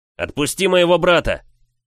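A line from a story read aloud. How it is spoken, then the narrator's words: Yelling. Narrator (Russian): заорал я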